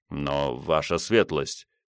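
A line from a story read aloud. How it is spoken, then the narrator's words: Soft but insistent. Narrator (Russian): мягко, но настойчиво сказал Бенвенуто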